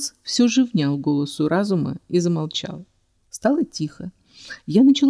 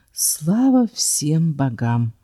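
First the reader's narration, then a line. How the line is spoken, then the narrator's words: Breathed out with relief. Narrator (Russian): Выдохнула я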